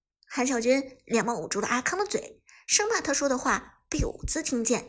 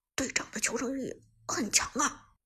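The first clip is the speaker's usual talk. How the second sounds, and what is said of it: Quiet aside, low voice. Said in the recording (Chinese): “小声在旁边道”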